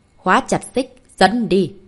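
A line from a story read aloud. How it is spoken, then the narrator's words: Raised commanding voice. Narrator (Vietnamese): hắn cao giọng nói với Tứ Đại Kim Cang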